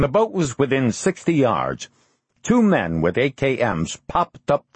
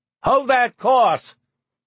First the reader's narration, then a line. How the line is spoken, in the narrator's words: Karsten shouted to his wife